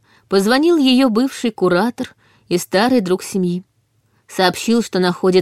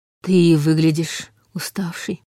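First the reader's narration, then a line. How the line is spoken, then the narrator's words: Soft, gentle. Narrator (Russian): мягко заметил Борис Евгеньевич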